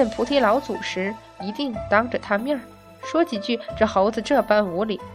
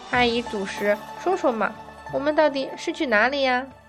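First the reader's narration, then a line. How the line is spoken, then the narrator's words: Coaxing, whiny. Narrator (Chinese): 女孩这样的撒娇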